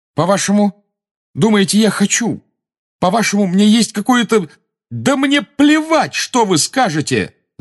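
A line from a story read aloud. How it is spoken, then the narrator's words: Shouting. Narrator (Russian): закричал Гарри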